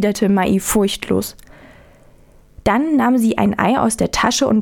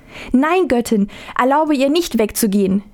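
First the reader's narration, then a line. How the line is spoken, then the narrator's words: Imploring cry. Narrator (German): rief die Mutter beschwörend aus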